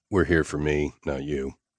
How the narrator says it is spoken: I said dryly

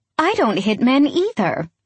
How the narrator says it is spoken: she says sweetly

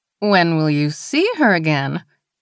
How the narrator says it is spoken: She laughed, a little embarrassed

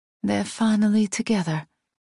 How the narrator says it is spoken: I murmur

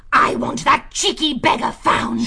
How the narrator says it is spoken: She shrieked

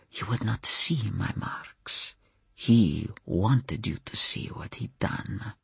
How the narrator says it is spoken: he whispered

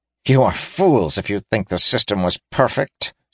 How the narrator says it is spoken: sneered Drass

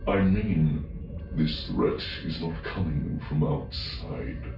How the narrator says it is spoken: Jixtus said, lowering his voice as if afraid others were listening in

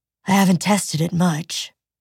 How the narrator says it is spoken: Mock said, sighing

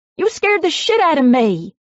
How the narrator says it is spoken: I exclaimed

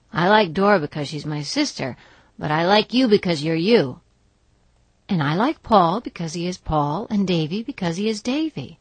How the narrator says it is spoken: said Anne gaily

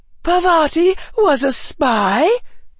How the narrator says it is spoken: gasped Hannah

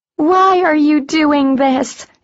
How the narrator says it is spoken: Arian cried, straining

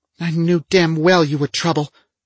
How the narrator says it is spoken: she snapped at me

